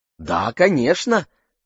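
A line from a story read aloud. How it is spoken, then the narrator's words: Joyful singsong. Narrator (Russian): радостно пропела она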